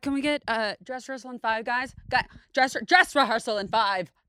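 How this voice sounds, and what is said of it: Imitates another person's voice. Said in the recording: “this is my impression yeah, of Yasmin hearing that someone's gay in middle school theater ... I'll be Yasmin.”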